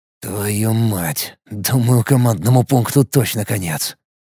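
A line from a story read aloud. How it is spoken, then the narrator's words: Muttered. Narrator (Russian): пробормотал я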